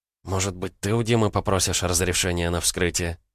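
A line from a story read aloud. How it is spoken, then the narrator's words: Hesitant question. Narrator (Russian): неуверенно спросила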